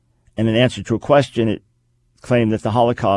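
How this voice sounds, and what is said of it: Usual voice. Nothing is said of it.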